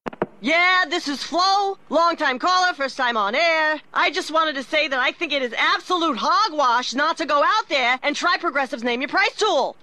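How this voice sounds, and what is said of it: Sports talk radio caller voice. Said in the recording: “my impression of someone calling into Sports Talk Radio.”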